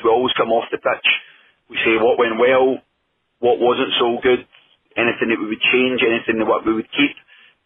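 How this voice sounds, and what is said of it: Scottish accent. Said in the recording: “this funny Scottish accent”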